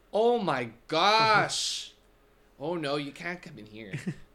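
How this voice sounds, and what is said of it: Put-on Midwestern accent. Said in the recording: “What accent is a Indiana person? ... No, it's got to be Midwest, something like that.”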